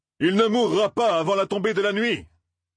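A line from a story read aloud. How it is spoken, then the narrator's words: Loud shout over din. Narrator (French): cria Tom, sa voix parvenant à couvrir le vacarme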